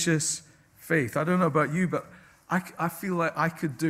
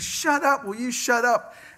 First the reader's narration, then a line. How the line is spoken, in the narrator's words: he just shouts all the louder